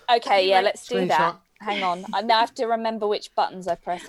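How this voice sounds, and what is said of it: Prim and proper British accent. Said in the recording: “my very prim and proper British accent”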